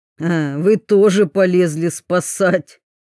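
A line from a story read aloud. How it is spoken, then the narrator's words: Snorting. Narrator (Russian): хмыкнул Скорин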